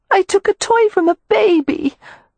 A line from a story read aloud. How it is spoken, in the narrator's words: Beatrix moaned